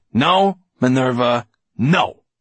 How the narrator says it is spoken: he said firmly

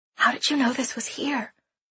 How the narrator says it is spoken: I whisper

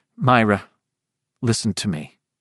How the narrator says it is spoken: he said, making his voice purposely dry, purposely matter of fact

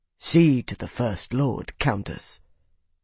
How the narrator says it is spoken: said in a quiet, firm tone

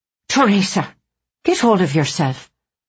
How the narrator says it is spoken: said sharply

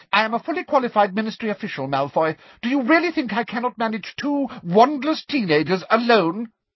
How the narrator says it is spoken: asked Umbridge sharply

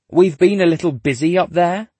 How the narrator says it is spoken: the kid snaps

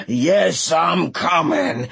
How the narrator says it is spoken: the pursuing waters growled and shouted

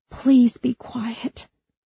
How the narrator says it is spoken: Sam begged

